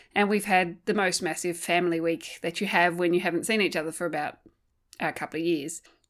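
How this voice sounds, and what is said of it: Voice sounds still unwell. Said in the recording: “you may be able to hear it in my voice that I'm still recovering”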